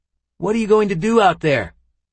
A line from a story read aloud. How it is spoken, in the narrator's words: Aaron yelled